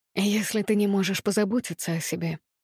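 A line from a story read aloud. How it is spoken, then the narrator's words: Deceptively soft. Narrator (Russian): обманчиво мягко продолжил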